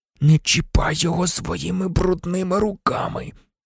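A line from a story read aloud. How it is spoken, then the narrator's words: Barely audible rasp. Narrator (Ukrainian): ледь чутно прохрипів Гаррі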